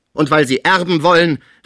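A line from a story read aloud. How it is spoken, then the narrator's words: Called out irritably. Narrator (German): rief Pons unwillig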